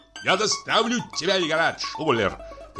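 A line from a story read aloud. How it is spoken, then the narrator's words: Shouting. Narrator (Russian): кричал капитан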